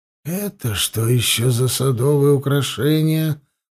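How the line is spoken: Mutter. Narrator (Russian): пробормотал Хаста

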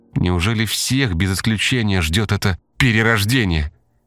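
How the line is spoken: Trembling question. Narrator (Russian): дрожащим голосом спросила Диана

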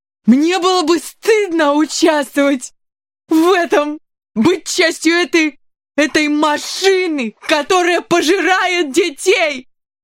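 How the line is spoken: Drunk man shouting. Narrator (Russian): закричал пьяница

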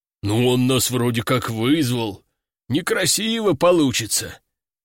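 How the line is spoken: Deep bass voice. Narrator (Russian): пробасил второй

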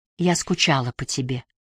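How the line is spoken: Whispered. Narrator (Russian): она прошептала

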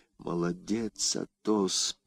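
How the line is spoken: Whisper. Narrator (Russian): прошептал Д'Артаньян

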